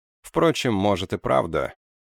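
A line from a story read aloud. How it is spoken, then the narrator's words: Deep sigh. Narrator (Russian): лейтенант глубоко вздохнул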